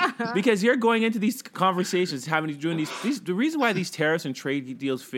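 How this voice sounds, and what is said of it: Usual voice. Nothing is said of it.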